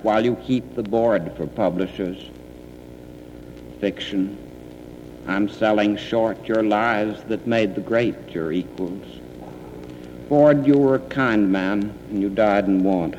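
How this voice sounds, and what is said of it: Unusual Boston-Southern American accent. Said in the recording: “You don't hear that accent very often ... he had this kind of weird Boston Southern accent that nobody else had”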